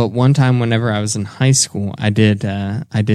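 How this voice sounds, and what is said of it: Usual voice. Nothing is said of it.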